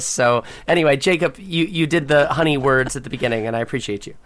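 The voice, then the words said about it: Hoarse, strained voice. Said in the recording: “I just lost my voice”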